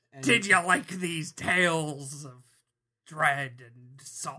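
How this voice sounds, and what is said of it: Pirate sea-dog voice, Willem Dafoe. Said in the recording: “I feel like you're doing a pirate accent... Willem Dafoe's character from The Lighthouse... You're doing Salty Sea Dog as filtered through Willem Dafoe”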